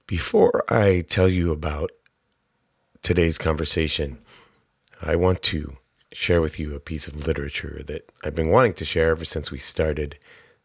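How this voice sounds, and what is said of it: Hoarse voice. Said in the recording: “I'm getting over a nasty little chest cold, so pardon my voice.”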